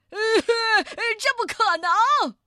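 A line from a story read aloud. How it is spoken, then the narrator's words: Shout. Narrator (Chinese): 随着叫声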